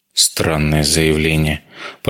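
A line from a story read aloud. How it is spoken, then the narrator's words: Muttered. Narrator (Russian): пробормотал Вейдеманис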